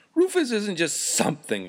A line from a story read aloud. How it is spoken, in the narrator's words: exclaimed Mr